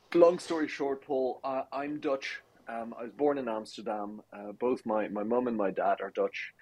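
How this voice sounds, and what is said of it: Irish accent. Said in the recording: “the Irish accent that I think my wife forced upon me”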